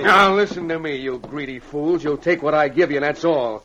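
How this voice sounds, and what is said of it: Raised, loud angry voice. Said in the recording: “Now, quiet down. No use raising your voice.”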